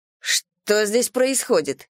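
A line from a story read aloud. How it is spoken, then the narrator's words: Stern question. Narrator (Russian): строго спросила я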